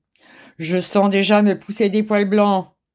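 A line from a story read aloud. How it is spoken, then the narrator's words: Growled. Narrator (French): gronda M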